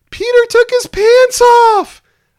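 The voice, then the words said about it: Big girl voice. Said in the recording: “in her big girl voice”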